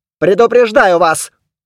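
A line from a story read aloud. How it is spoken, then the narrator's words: Barking, lean lady. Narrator (Russian): рявкнула сухопарая леди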